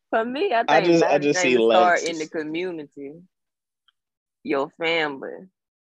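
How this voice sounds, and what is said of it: Thick accent. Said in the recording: “Your accent thick than the motherfucker.”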